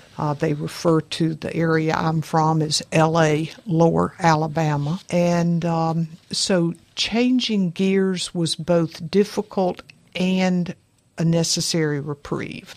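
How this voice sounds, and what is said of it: Northwest Florida Southern accent. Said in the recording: “Northwest Florida, as you can tell from my accent, doesn't sound or look like Miami, Orlando.”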